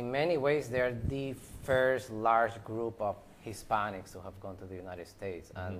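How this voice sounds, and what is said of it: Slight Puerto Rican accent. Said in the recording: “I detect a little bit of an accent.”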